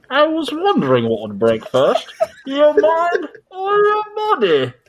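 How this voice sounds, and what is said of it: Bane character voice impression. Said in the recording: “my spot on Bane impression ... tell me the voice is spot on ... It was pretty good”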